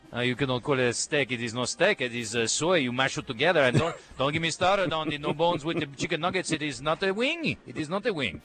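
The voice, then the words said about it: Exaggerated, deliberately bad French accent. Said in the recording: “What would Tony Parker sound like if he said that? ... your impression of the French was bad enough to be good”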